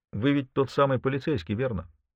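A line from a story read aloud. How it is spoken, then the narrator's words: Plain question. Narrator (Russian): наконец спросил я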